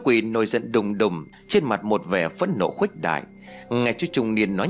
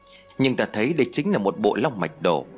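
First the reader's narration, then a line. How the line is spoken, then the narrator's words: Fearless middle-aged man. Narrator (Vietnamese): Chú trung niên không sợ hãi rồi nói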